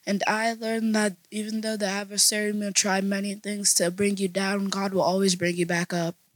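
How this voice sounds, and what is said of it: Strained, failing voice. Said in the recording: “my voice is dying”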